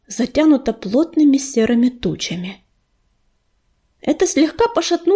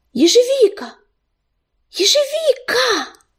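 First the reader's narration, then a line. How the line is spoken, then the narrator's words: Agitated calling out. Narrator (Russian): Кто-то взволнованно окликал его по имени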